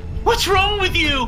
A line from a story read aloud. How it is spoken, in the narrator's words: He screamed